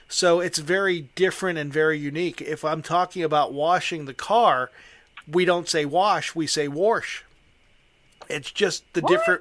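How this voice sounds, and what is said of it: Western Pennsylvania accent. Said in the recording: “It's a very unique... It is a very unique accent or dialect in Western Pennsylvania ... We slur everything together.”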